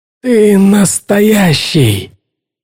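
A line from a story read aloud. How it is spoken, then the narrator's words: Forced-out words. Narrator (Russian): выдавил он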